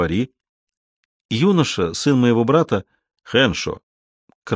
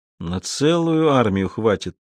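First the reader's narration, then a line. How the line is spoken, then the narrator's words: Glum inner thought. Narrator (Russian): уныло подумал Базо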